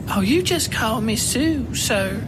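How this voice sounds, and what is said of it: Posh southern accent. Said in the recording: “affecting a posh southern accent”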